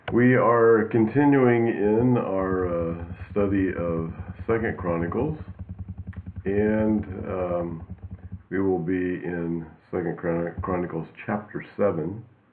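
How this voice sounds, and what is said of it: Congested, sick-sounding voice. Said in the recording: “the sound of my voice. I've got a cold. ... it's definitely developed into a cold, so I have to excuse the sound of my voice this morning”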